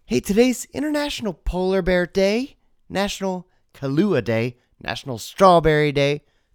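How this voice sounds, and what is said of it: Slightly scratchy, ill-sounding voice. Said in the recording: “Still getting over a bit of an illness, so my voice is just a little on the scratchy side”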